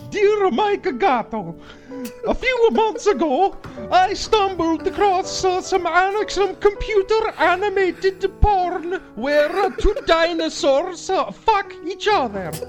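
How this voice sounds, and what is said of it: Put-on Swedish accent. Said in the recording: “Swedish ... I can't really do a Swedish accent ... You could do a great Swedish accent. Your Swedish accent rules, dude. It's so sweet.”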